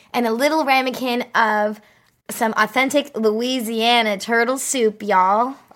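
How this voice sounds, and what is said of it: Put-on Southern American accent. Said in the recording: “Oh, that's good accent.”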